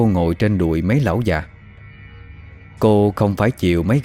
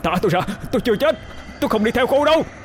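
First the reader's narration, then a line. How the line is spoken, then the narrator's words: Struggling shout. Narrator (Vietnamese): Anh dùng dãy mà hét lên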